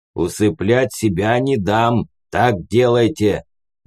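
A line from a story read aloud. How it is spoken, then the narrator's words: Growl. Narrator (Russian): рыкнул умник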